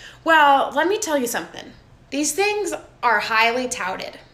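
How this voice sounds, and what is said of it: Usual voice. Nothing is said of it.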